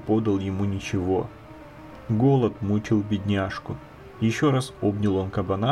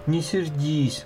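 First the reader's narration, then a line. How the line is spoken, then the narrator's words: Pleading. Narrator (Russian): взмолился он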